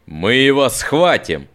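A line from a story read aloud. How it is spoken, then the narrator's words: Growled. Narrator (Russian): прорычал Нат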